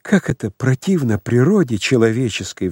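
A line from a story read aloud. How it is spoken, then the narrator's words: Sighing. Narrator (Russian): вздохнул дьякон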